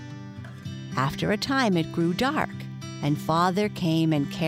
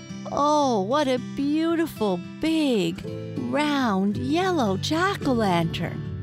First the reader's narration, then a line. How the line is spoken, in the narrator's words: And all the grandmothers and grandfathers and aunts and uncles cried